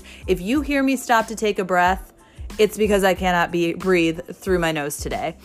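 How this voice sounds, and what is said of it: Congested, raspy voice from a cold. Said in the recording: “I brought home with me a cold. That's right. I have a stuffy nose. I have a raspy voice.”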